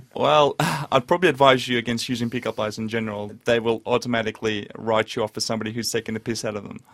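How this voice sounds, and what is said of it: Slight Russian accent. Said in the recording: “you speak with somewhat of an accent ... I'm actually from Russia originally ... I've still got that small accent.”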